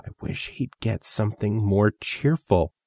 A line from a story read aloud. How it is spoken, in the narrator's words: Emerald whispered to Lou